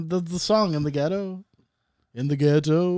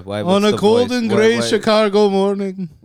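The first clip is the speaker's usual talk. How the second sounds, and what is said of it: Elvis impression with put-on Indian accent. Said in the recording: “do the voice? ... the voice? ... Because it's Indian Elvis.”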